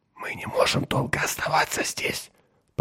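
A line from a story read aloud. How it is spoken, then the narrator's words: Whisper. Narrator (Russian): прошептал Меррик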